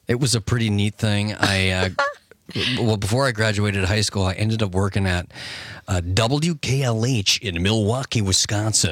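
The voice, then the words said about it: Put-on radio announcer voice. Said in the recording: “I was working on my radio voice ... it's pretty good. Really good.”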